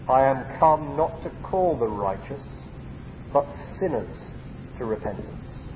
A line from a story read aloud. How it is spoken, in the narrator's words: He answered solemnly